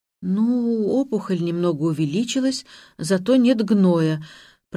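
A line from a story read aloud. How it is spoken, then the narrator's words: Trembling voice. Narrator (Russian): произношу я дрожащим голосом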